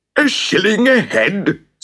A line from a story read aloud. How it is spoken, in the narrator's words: screeched the mayor